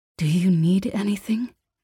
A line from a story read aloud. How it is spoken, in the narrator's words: Mia sighed shakily